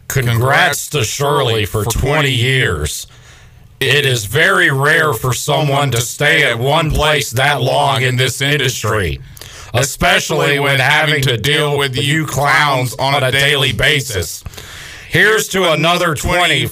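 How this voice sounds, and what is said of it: Imitates another person's voice. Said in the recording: “our best impression of that person's voice”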